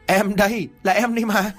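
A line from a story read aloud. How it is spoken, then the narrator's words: Ghost bursting into laughter. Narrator (Vietnamese): con ma ở ngoài cổng lại cười phá lên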